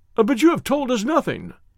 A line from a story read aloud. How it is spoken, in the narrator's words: cried the doctor